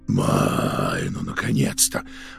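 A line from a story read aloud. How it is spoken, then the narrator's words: Relieved exhale. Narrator (Russian): выдохнул Протасов-старший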